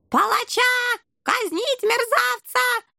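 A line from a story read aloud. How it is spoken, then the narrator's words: Shrieking rat general. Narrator (Russian): завизжал крысиный генерал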